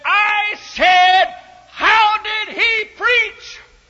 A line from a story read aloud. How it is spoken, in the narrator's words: the old guy shouted and said